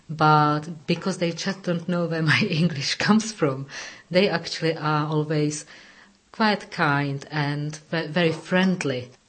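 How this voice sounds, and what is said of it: Non-native English accent, hard to place. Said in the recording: “you're not a native English speaker ... They can still hear my accent, but they don't know where to place me”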